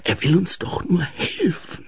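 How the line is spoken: Hissed. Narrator (German): zischte Ensel

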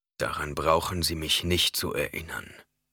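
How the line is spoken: Growling. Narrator (German): knurrte er

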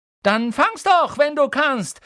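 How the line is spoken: Shout. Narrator (German): schrie er

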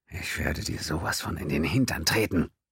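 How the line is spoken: Hateful whisper. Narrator (German): O'Halloran flüsterte ihm mit aufrichtigem Hass zu

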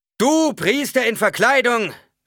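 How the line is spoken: Calling out. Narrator (German): rief der Prediger

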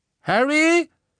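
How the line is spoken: Calling again from afar. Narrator (German): rief Ron erneut von der anderen Seite der Gerümpelmauer

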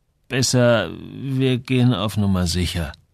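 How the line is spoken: Hesitant. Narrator (German): antwortete Samuel zögernd

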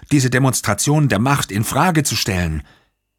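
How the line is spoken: Angry shout. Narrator (German): rief jemand ärgerlich

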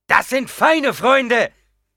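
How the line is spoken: Angry shout back. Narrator (German): schrie wütend zurück

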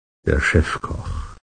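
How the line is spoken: Father speaking quietly. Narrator (German): sagte sein Vater leise

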